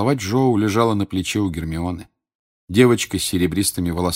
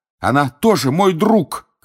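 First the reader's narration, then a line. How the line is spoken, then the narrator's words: Shouting. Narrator (Russian): кричал Гарри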